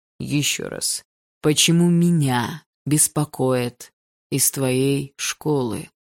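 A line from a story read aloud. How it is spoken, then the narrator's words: Slow and clear. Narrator (Russian): Медленно и четко произнес его отец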